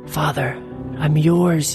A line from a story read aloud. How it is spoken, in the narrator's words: whispered